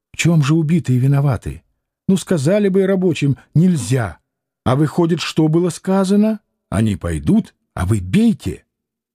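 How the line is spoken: Heated whispered questions. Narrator (Russian): он спрашивал горячим шепотом

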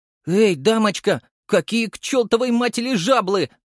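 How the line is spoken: Shouted. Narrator (Russian): закричал я

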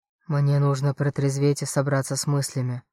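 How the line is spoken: Sighing. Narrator (Russian): вздохнул

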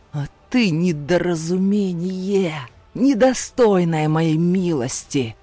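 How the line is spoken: Snarling stepfather. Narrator (Russian): оскалившись, прорычал отчим

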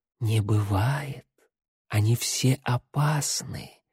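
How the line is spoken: Whispered. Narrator (Russian): шепнула

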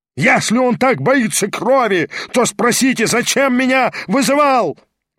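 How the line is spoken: Howling shout. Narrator (Russian): вопил Гаганов

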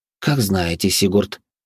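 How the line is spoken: Cold, curt. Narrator (Russian): холодно отрезала Вероника

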